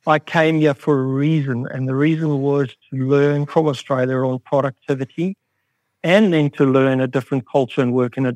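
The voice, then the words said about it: South African accent. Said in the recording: “You can clearly pick up my accent is different ... place of birth, deep-level gold mining in South Africa”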